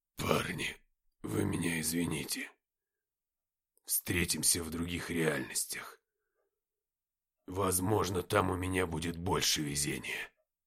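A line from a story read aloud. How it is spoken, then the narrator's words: Muffled hoarse wheeze. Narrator (Russian): Глухо просипев, он сказал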